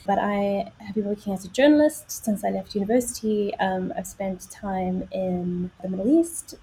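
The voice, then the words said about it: South African accent. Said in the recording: “I'm from South Africa, which is where the accent comes from”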